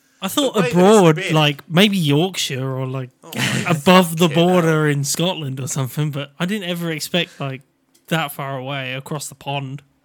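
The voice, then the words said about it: Norfolk English accent. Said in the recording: “It's my Norfolk accent”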